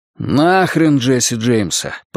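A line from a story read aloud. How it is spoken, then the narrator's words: Grumbling mutter. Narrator (Russian): пробурчал Эд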